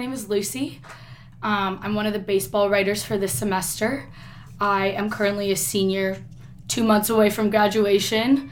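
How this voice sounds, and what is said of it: Raspy voice. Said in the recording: “my voice is sounding a little bit raspy right now. Usually it doesn't sound like this.”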